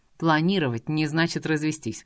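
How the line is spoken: Wry snort. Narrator (Russian): хмыкнул Фаниан

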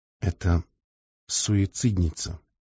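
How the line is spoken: Quietly said. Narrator (Russian): негромко сказала она

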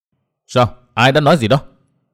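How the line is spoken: Angry shouted question. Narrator (Vietnamese): Từ Nguyên Bình đỏ mặt tía tai, máu dần xông lên khó dằn được, chàng quát hỏi

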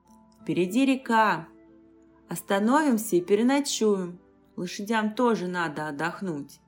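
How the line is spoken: Plain. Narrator (Russian): сказал Дариан

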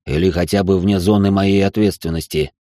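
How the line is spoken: Displeased grumble, guard. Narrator (Russian): буркнул недовольным тоном охранник

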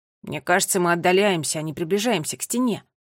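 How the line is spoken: Scoffing snort. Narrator (Russian): фыркнул Томми

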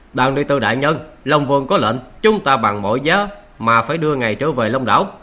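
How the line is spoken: Raised, loud voice. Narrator (Vietnamese): Người không kỵ binh thuộc Long tộc cất cao giọng nói

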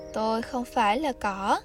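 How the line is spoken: Gentle reply. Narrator (Vietnamese): bông hoa nhẹ nhàng đáp lại

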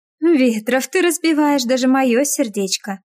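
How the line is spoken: Giggling close behind. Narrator (Russian): хихикает над моим плечом Светлана

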